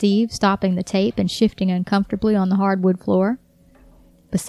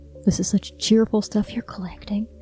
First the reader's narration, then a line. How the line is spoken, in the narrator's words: he whispered in her ear